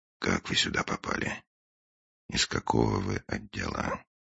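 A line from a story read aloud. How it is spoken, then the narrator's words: Very quiet question. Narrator (Russian): очень тихо, Финч спросил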